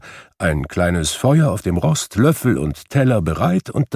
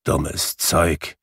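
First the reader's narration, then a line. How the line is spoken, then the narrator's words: Grumbling. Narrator (German): brummte Scrooge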